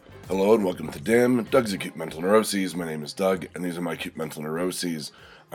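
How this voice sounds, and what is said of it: Deep, scratchy voice. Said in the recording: “I'm sure you can hear it. My voice has dropped about an octave, and my throat's a little scratchy. I've got a bit of a head cold.”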